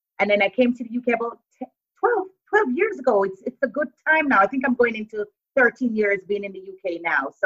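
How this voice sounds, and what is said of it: Mixed Jamaican and American accent. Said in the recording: “the accent is cross-transatlantic. It's like Jamaican, a bit of American. I don't have a thick British accent ... It's just mixed accents ... you sound like an American”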